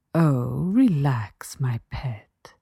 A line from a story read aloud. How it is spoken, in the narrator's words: the woman cooed softly